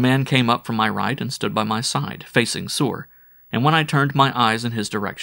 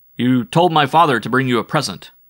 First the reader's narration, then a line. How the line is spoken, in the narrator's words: I yelled at the top of my lungs so that all about in every direction heard